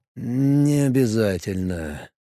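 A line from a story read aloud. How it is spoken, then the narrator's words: Hesitant drawl. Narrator (Russian): неуверенно протянул командор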